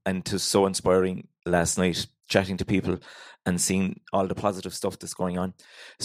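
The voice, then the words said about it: Irish Cork accent. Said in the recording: “if you can't understand me, Sarah will translate the Cork accent there later on”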